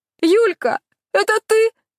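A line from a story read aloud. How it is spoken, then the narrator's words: Sobbing housekeeper. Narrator (Russian): всхлипнула домработница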